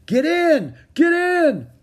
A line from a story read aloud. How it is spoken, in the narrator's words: a uniformed man shouted